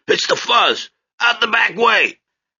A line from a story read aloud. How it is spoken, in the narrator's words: someone yells